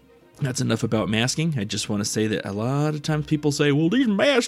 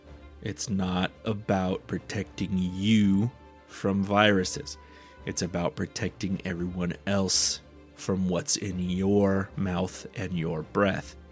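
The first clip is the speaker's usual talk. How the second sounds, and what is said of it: Slow, deliberate speech. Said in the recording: “say this slower.”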